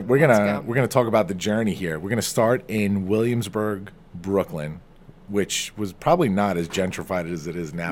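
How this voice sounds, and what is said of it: Long Island accent. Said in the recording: “my Long Island, what do you call it, a drawl, an accent?”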